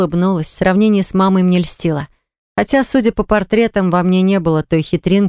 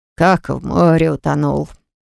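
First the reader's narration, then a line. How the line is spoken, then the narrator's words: Muttering. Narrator (Russian): пробормотал дядя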